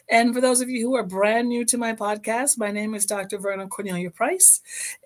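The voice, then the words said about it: Slightly hoarse voice. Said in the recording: “my voice sounds a little hoarse. ... I spent the whole weekend yelling and screaming and cheering”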